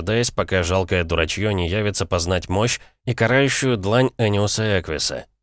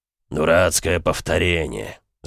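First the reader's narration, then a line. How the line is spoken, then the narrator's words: Grumbling. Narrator (Russian): заворчал Бронзовый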